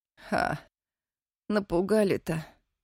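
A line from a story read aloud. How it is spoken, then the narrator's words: Hoarse reply. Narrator (Russian): хрипло отозвалась Юлька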